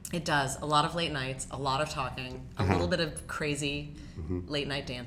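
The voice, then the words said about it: Rough, worn-out voice. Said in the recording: “I'm a little bit rough around the edges this week, which you can probably hear in my voice”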